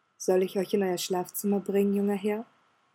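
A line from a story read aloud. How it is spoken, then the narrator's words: Quiet. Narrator (German): Sebastian sagte leise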